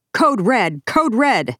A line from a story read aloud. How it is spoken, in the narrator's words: Peterson says he then switched to his school radio and yelled